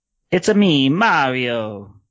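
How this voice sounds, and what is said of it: Mario character voice impression. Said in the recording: “our impersonations ... I probably will not try to match ... in that”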